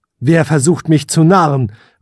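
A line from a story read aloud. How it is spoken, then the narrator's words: Calling into darkness. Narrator (German): rief der Prinz in die Dunkelheit hinein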